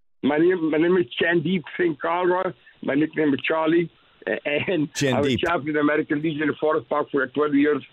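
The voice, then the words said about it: Thick accent. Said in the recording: “You got a thick accent, my bro”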